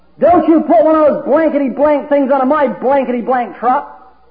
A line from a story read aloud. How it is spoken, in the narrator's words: the man that was talking to this anti-Christian man screamed out